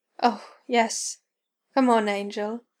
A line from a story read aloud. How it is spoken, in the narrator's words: Crowley gasped